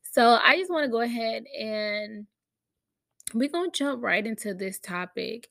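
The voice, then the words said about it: Low voice from a cold. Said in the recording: “My voice sounds a little low because I do have a little cold”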